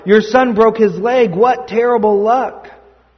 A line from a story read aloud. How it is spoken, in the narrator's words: the villagers cried